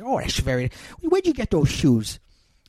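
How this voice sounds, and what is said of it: Peter Falk as Columbo impression. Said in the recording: “That's my awesome Peter Falk impression.”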